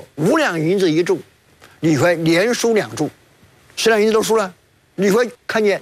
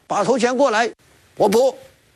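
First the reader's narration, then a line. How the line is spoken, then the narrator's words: Shouting. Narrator (Chinese): 李逵叫道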